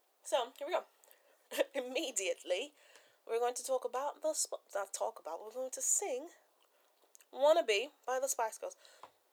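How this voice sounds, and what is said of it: Put-on British accent. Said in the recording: “I just go into my British accent.”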